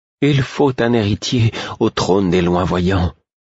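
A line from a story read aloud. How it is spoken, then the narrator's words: Earnest, heartfelt tone. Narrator (French): dit-il d'un ton pénétré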